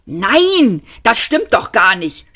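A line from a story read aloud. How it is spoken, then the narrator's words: Angry shout. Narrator (German): schrie Magik Weiß ärgerlich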